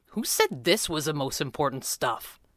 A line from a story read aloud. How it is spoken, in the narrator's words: Jeremy snapped